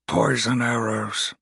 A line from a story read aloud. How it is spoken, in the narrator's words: Hallrock grunted